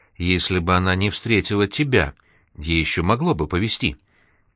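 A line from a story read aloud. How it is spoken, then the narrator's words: Trembling voice. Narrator (Russian): дрожащим голосом добавил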